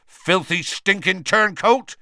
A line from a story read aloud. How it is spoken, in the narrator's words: Hagrid said so loudly that half the bar went quiet